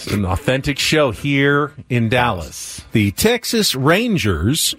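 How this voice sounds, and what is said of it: Put-on Southern accent. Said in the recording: “Did you just do a Southern accent?... It's very, very good.”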